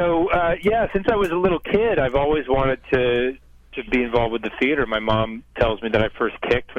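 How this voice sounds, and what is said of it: Usual voice. Nothing is said of it.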